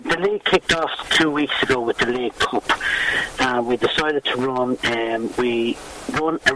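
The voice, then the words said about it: Dublin Irish accent. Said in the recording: “originally a Dublin man, I presume, by the accent”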